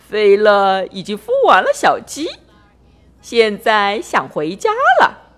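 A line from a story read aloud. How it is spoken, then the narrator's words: Cheerful, grinning. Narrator (Chinese): 郝家弟笑嘻嘻地说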